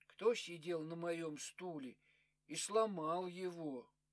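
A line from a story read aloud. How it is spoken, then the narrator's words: Quiet question. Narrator (Russian): Мишутка спросил тихо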